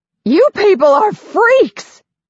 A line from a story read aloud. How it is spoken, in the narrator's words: screams